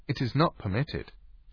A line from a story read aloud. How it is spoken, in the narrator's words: she said